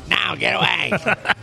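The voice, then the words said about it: Pissy, gargly, nasal mom voice. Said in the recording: “That's a great mom voice right there. That's the best and the worst right there. ... Just pissy and gargly and nasally”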